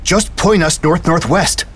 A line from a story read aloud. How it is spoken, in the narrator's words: Dumont shouted, raising her voice to be heard over the wind whipping outside